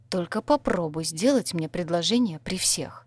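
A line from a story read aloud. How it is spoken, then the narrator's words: Warning hiss. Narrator (Russian): зашипела упреждающе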